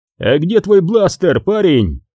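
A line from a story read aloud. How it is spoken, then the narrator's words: Shout. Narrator (Russian): крикнул Хан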